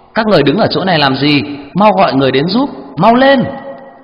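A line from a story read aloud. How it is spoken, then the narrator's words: Loud urgent shout. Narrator (Vietnamese): trợ lý của anh lớn tiếng hỏi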